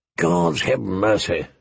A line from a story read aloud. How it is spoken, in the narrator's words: the old bear muttered